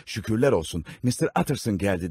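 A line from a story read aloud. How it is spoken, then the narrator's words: Exclaiming. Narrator (Turkish): diye haykırarak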